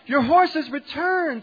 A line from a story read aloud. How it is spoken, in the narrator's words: The neighbors shouted out